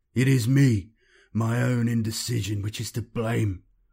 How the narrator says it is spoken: Cortez moaned

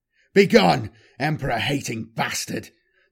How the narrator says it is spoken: the man barked

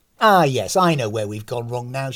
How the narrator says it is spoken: said

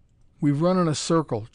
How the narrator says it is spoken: choked McGuire, his voice weak and uncertain with exhaustion

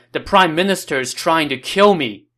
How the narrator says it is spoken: he shouted

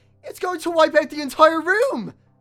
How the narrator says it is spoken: Elias yelled

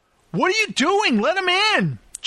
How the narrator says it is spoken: Jack shouted

